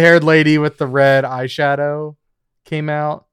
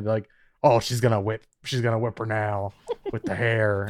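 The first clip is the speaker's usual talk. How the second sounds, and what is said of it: Imitates another person's voice. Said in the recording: “sounds like you're doing a Dan impression ... who's this impression? ... It was a couple of his friends.”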